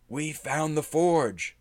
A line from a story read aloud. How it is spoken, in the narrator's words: Nundro exclaimed